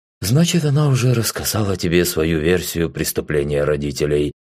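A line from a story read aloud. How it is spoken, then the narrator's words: Calm. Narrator (Russian): спокойно произнес он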